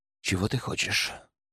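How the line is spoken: Quiet. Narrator (Russian): Уже тихо произнес

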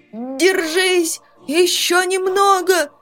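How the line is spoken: Hoarse encouragement. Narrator (Russian): прохрипел Дан, подбадривая приятеля

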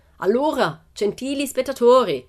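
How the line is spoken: Showman shouting. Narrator (Italian): gridò ancora il direttore del circo

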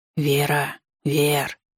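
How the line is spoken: Hissing. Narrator (Russian): слышалось шипение

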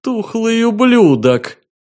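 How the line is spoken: Shouting. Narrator (Russian): выкрикнул Либерий

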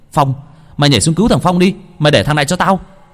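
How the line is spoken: Shout. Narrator (Vietnamese): Hồng hét lên

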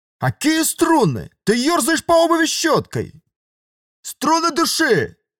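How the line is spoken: Man shouting. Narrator (Russian): Снова крикнул мужик

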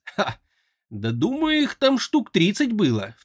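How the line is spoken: Lynx chuckling, matching tone. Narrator (Russian): в тон ему хохотнула рысь

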